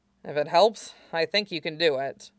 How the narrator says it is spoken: he mumbled

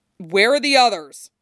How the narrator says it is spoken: He barks

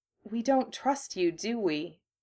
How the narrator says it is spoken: Hermione said, her voice small

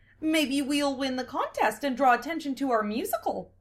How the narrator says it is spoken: Amelia said cheerfully

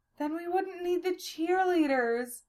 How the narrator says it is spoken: Silphiel cried out

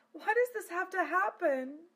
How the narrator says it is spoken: She wailed

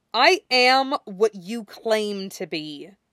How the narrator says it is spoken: he hisses, and the words sound differently in his mouth now thanks to the teeth

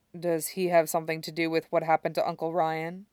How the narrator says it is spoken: He asks quietly

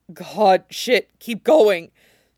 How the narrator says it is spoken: Shane breathes

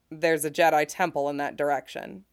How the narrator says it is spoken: he says

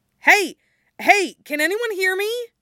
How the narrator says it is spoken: a muffled thump, a voice that shouts

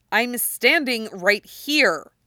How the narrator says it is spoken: Jackson snaps

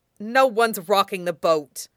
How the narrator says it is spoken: Jiang Cheng snaps

